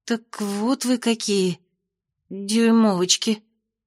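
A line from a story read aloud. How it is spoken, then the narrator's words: Sleepy mutter. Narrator (Russian): сонно пробормотала Майя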